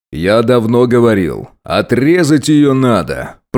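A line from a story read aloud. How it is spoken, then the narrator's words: Booming, condescending father. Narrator (Russian): прогремел отец свысока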